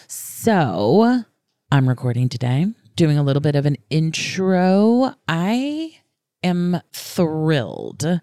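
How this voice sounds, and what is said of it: Voice affected by a cold. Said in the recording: “Apologies that I don't sound amazing. I've got a little bit of a cold”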